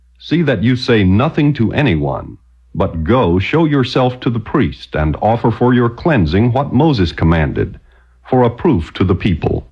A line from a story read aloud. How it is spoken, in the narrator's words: he sternly charged him, and said to him